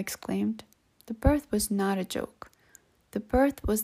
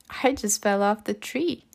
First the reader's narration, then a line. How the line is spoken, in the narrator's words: exclaimed Chad and laughed